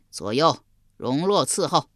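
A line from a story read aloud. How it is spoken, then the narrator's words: Delighted loud voice. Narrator (Chinese): 襄王喜得合不拢嘴，高声说道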